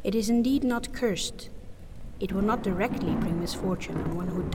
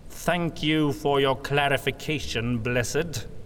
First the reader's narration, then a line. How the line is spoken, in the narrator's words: Von Baumeister said through gritted teeth